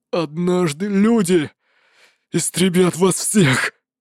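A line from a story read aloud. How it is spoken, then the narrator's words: Strained forced words. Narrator (Russian): Удалось выдавить Ле Цзиньтяню из себя несколько слов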